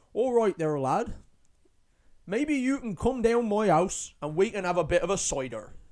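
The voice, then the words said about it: Put-on West Country farmer accent. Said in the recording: “He was from near Bristol in the UK, and I did that accent ... like farmer thing. I don't think that was very good ... like a Cornish accent, farmery kind of guy”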